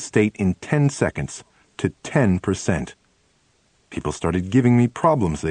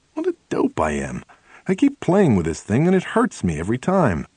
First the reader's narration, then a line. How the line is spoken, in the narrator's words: exclaimed